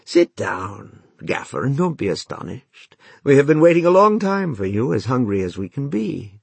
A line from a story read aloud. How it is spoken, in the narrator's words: Odysseus spoke kindly to them and said